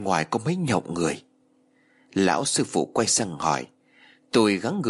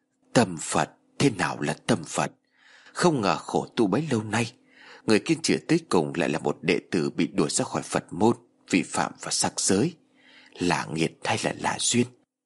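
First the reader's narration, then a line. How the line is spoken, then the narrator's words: Old monk, long sigh. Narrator (Vietnamese): Nhà sư râu bạc thở dài thườn thượt nói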